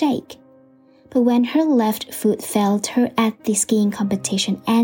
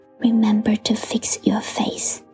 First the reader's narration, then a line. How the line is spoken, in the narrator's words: he whispered